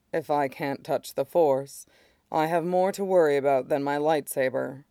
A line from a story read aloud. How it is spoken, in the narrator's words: Mace says dryly